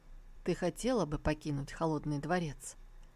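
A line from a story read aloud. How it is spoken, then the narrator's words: Quiet, emotionless voice. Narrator (Russian): лишенный эмоций голос тихо произнес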